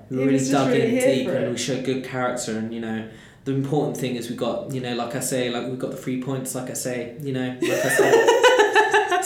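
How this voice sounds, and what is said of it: Imitates a footballer's post-match interview. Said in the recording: “my football impression.”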